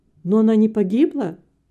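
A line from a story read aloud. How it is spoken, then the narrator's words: Exclamation. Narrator (Russian): воскликнул Вилли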